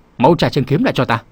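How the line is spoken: Old voice shouting. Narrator (Vietnamese): sâu già quát lớn

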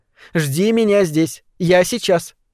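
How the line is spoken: Stern. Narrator (Russian): сказала Сашеньке строго

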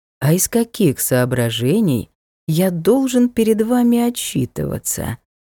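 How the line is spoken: Ingratiating question. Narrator (Russian): вкрадчиво спросил лорд

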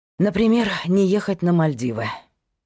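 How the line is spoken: Sighing. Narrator (Russian): вздохнул Павел

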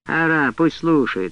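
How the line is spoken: Irritated, dismissive father. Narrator (Russian): раздраженно отмахнулся отец

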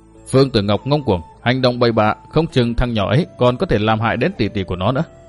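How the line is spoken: Fearful mutter. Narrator (Vietnamese): Vương Phương Thúy đôi mắt vẫn còn chứa đầy lo sợ, lẩm bẩm

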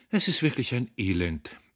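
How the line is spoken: Sighing, two women. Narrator (German): seufzten Frau Harnisch und Frau Kohn

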